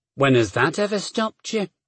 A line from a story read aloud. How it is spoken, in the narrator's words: Gillen muttered